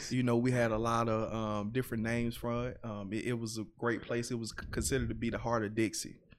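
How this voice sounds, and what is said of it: Heavy Southern US accent. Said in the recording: “you're our first like heavy Southern accent person.”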